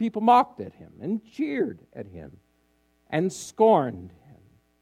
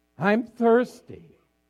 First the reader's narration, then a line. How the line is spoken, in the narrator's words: He cried out once